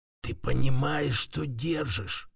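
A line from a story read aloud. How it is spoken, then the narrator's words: Voice breaking into whisper. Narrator (Russian): Его голос почти сорвался на шепот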